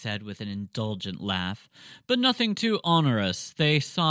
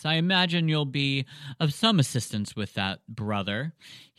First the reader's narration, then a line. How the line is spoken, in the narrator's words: he said with another warm chuckle